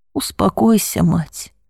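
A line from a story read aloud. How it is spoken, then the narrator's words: Gentle, kind. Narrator (Russian): ласково произнес епископ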